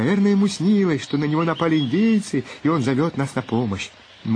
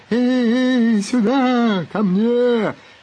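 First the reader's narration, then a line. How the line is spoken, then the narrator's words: Sleepy moaning mumble. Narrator (Russian): застонал во сне, бормоча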